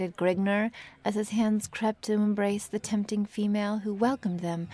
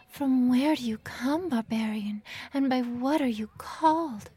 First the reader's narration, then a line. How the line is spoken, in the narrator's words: gasped the complying wench